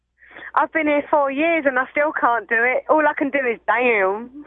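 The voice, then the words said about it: Cockney English accent. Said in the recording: “I'm a Cockney”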